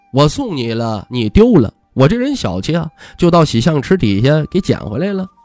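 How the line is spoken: Playful grin. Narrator (Chinese): 徐凤年一脸嬉笑

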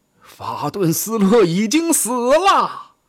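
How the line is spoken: Shouted out. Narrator (Chinese): 施拉伯伦道夫喊了出来

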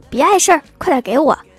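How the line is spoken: Shouting. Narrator (Chinese): 郭大嫂就喊

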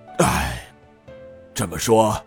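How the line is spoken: Sighing. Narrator (Chinese): 尹道成叹声道

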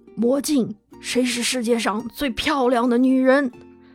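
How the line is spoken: Hoarse low voice. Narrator (Chinese): 用沙哑低沉的声音问

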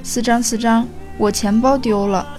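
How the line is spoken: Crying over phone. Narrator (Chinese): 何玉在电话里哭着说

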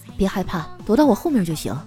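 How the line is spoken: Very gentle. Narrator (Chinese): 他都会非常温柔的跟我说

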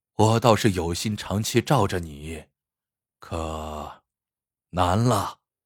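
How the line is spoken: Heavy sigh. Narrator (Chinese): 楚南山忍不住长叹一声，说

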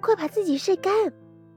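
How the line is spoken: Fairy calling out. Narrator (Chinese): 眼泪仙女叫

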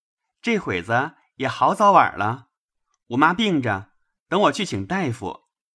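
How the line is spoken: Laughing. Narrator (Chinese): 那小厮笑道

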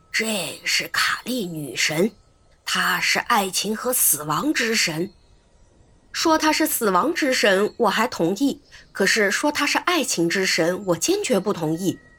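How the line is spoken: Low voice. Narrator (Chinese): 科罗马蒂 他低声说

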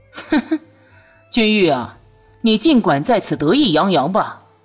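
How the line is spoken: Strange sneering laugh. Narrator (Chinese): 忽然怪笑一声

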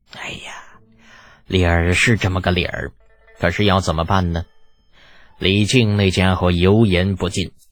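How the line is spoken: Sighing. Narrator (Chinese): 柏林崔氏族长叹了口气

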